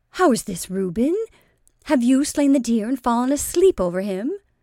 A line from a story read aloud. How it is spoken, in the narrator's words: exclaimed Dorcas, laughing cheerfully on her first slight observation of his posture and appearance